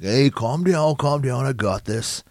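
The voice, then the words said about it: Imitates another person's voice. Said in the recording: “good Samoa Joe impression”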